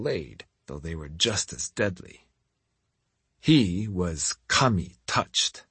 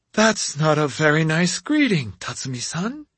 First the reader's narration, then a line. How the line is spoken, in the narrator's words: Jomei said in his high, breathy voice